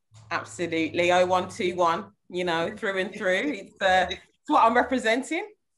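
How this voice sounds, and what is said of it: Birmingham English accent. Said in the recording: “I'm hearing that Birmingham accent as well from you”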